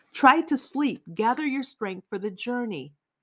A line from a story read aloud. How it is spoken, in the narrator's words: Someone called out